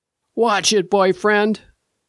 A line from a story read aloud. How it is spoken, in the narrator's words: croaked a voice behind me